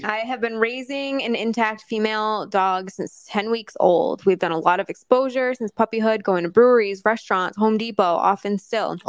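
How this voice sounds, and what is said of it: Raspy voice. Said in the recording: “My voice is so raspy right now.”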